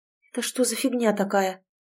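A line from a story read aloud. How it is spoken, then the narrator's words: Mumbling. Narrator (Russian): пробормотала Тоня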